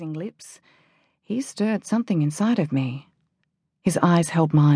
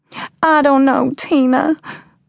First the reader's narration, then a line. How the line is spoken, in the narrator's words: Janie said, her voice small and hesitant